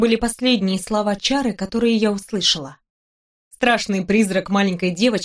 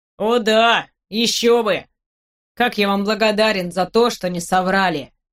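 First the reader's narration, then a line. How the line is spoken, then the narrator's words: Boy snorting. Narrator (Russian): хмыкнул мальчик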